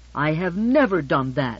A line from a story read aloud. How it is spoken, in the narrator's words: she said indignantly